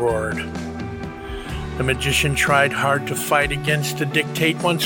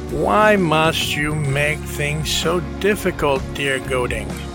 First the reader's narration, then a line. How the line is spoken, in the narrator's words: Lorenzo asked